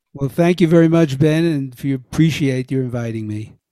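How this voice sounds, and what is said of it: Brooklyn accent. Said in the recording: “Don't get rid of that Brooklyn accent”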